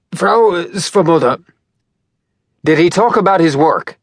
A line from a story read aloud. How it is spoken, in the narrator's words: Valdemar blurted out